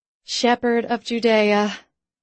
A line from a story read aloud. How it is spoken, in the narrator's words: I muttered